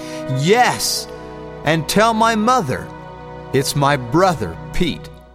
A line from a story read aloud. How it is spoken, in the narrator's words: shout back